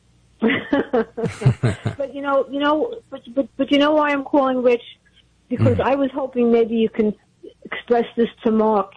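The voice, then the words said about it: Brooklyn accent. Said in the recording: “I remember your voice. It sounds like you're from Brooklyn.”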